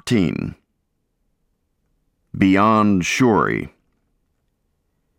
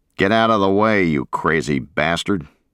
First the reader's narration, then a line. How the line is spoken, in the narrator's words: growled the Marine